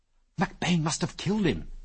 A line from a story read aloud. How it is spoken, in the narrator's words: he whispered tensely